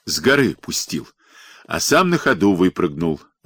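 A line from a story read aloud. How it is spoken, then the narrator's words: Laughing loudly. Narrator (Russian): расхохотался Пантелей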